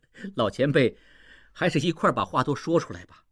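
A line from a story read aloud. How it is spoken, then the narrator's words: Smiling. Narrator (Chinese): 应季笑着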